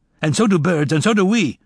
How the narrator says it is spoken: Toby said angrily

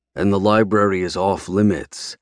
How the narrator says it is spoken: I growl

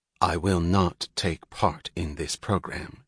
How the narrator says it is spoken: she said evenly

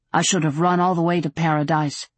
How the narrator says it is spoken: he said thickly

